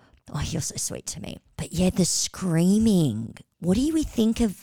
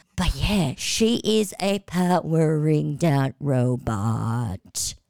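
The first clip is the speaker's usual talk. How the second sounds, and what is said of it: Powering-down robot voice. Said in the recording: “Rachel sounds like a powering down, running out of batteries robot ... my Rachel impression. I suck at impressions.”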